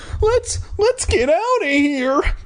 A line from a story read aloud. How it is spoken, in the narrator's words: I cried